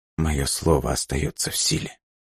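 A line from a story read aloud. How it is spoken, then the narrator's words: Barely audible. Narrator (Russian): едва слышно проговорила Снежана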